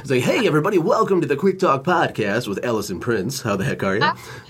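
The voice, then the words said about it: Exaggerated announcer-style radio voice. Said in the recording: “I turn on my radio voice”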